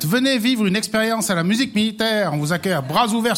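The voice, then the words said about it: Valais Swiss French accent. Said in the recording (French): “l'accent de ton invité? ... Il a son accent. ... Valaisan.”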